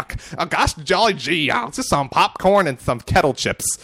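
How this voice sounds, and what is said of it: Put-on accent, drifting at end. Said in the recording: “accent. ... it got a little different towards the end there”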